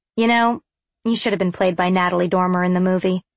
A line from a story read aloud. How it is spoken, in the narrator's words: I replied flatly